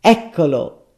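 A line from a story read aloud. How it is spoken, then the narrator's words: Dentist exclaiming. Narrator (Italian): esclamò il dentista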